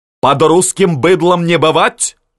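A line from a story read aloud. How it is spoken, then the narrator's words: Knights shouting. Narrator (Russian): закричали рыцари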